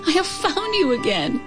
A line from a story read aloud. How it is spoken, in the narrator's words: Qin Yumin cried